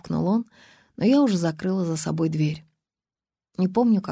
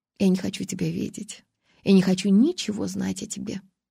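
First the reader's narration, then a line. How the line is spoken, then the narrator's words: Calm. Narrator (Russian): спокойно сказала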